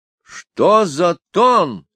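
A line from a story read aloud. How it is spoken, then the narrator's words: Surprised exclamation. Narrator (Russian): воскликнул Фирулькин, не ожидавший со стороны матери Аделины отпора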